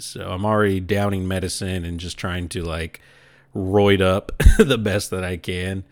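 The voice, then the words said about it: Slightly deeper, congested sick voice. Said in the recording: “I'm starting to get sick. I don't know if you could hear in my voice this time. It's a little deeper drainage in my throat.”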